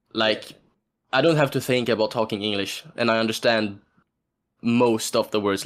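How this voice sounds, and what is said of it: Swedish accent in English. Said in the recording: “I still have my Swedish dialect”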